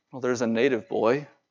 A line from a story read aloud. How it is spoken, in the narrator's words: David answered quietly